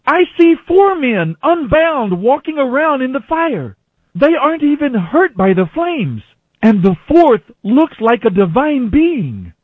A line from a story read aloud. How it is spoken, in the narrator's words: Nebuchadnezzar shouted